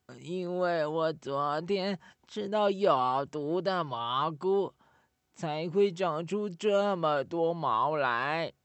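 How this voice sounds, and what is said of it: Pitiful, whimpering voice. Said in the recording (Chinese): “故意用可怜兮兮的声音说”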